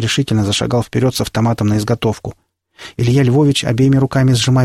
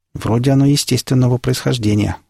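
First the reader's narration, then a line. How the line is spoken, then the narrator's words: Plain. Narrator (Russian): сказал я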